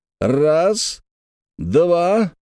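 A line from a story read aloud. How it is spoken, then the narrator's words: Exclaimed. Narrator (Russian): воскликнул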